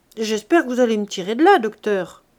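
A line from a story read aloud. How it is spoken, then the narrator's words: Cheerful voice. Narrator (French): dit-elle d'une voix gaie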